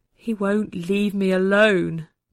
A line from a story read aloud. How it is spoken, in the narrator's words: he said miserably